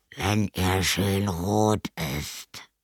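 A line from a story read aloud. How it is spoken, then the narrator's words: Vampire growling from cupboard. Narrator (German): knurrte der Vampir aus dem Schrank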